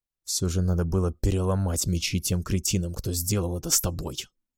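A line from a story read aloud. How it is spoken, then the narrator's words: Angry growl. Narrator (Russian): зарычал я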